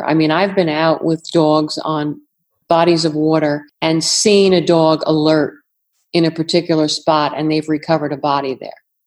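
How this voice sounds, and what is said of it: New York accent. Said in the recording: “that's my New York accent coming through”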